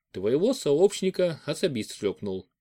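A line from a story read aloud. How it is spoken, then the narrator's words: Calm. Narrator (Russian): спокойно сказал Федор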